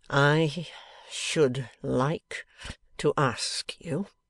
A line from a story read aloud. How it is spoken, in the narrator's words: said Bradley Headstone, grinding his words slowly out, as though they came from a rusty mill